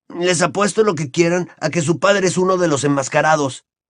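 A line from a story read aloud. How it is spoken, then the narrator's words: Furious exclamation. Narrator (Spanish): exclamó Ron furioso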